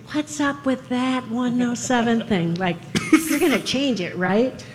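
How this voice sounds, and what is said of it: Imitates another person's voice. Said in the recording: “That's a really good Dan imitation, actually ... It's not whiny enough.”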